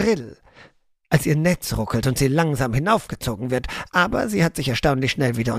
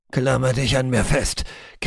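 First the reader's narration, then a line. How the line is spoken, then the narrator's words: Croaked. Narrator (German): krächzen wir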